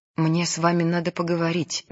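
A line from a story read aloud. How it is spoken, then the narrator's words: Sick person's trembling voice. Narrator (Russian): дрожащим голосом говорит больной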